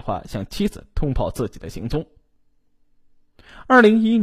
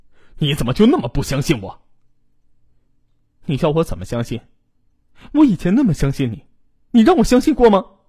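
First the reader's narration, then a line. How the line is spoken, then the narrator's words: Sharply raised voice. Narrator (Chinese): 刘文秀声音提高了八度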